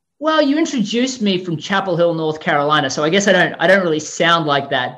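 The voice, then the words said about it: Australian accent. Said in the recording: “Are you like South African? Is that Russian? What is that? What's that accent? ... I'm actually from Melbourne, Australia originally”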